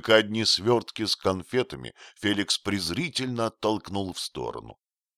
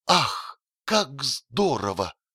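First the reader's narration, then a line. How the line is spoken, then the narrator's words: Delighted exclamation, two voices. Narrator (Russian): Оба от восторга не могли удержаться, чтобы не воскликнуть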